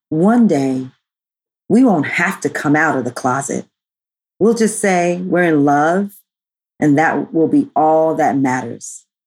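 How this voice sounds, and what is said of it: Special quote-reading voice. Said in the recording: “Should I put on my quote voice? ... I like your quote voice.”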